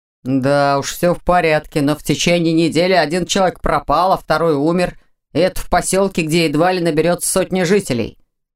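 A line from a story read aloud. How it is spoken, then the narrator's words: Grumbling. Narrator (Russian): проворчал муж Анны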